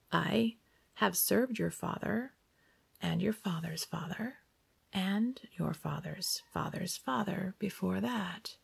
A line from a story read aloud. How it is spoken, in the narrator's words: Johannes said